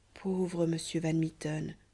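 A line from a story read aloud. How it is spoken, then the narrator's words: Young woman murmuring. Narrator (French): murmurait alors la jeune Amasia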